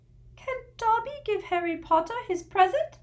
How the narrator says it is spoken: He squeaked tentatively

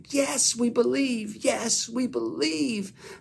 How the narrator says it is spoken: they would shout back

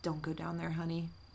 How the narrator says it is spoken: a whisper from the closet saying

